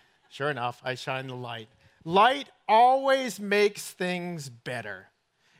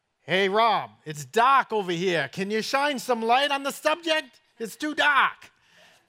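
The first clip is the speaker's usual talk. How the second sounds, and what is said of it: Put-on northern accent. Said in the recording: “I've got to say this in his northern accent”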